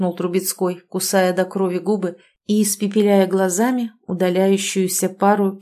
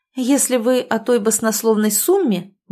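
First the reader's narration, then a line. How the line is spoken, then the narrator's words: Indignant low voice in ear. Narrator (Russian): возмущенно произнесла ему на ухо Ольга, чтобы никто более не слышал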